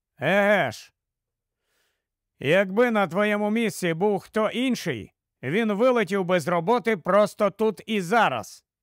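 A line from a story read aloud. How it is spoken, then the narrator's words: Stern. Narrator (Ukrainian): суворо сказав йому Маккей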